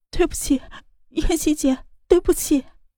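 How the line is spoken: Crying. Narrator (Chinese): 他…哭着道

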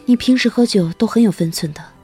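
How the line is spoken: Sighing. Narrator (Chinese): 夏晴叹息一声

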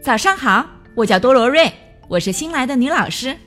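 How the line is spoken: Loud greeting. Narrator (Chinese): 他……大声说

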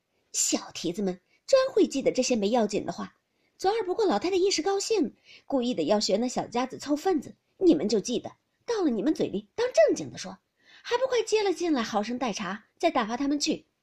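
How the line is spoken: Laughing scolding. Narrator (Chinese): 又是笑骂的

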